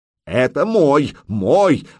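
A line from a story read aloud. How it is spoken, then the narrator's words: Yelling from behind. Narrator (Russian): завопил за спиной Рулов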